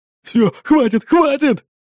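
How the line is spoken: Breathed out. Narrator (Russian): выдохнул Фернандо

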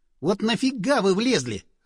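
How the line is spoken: Snapping retort. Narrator (Russian): огрызнулся я

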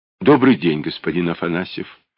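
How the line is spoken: Gentle, smiling. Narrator (Russian): ласково проговорила она, улыбаясь

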